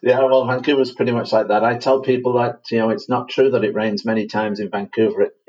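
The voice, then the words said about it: Manchester English accent. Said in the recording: “that's not a Vancouver accent you have... I'm originally from Manchester in England”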